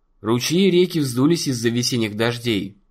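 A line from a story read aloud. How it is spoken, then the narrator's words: Plain. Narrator (Russian): сказал Дунк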